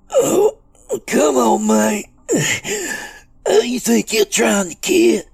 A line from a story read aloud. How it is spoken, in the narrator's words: In between groans of pain, Doobie rasped